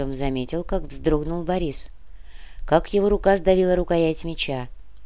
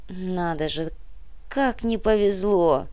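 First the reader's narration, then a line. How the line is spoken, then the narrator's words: Groaned. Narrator (Russian): простонал Муба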